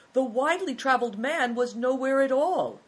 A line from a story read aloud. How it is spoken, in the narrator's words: Christian got a bright idea and cried